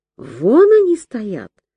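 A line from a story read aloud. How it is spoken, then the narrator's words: Calm statement. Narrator (Russian): спокойно сообщила Ирка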